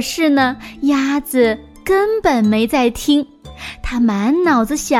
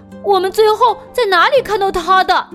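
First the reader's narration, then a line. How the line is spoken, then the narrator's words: Shouting together. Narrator (Chinese): 他们一起大喊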